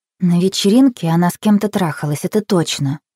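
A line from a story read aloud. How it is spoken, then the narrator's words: Very quiet. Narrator (Russian): сказала очень тихо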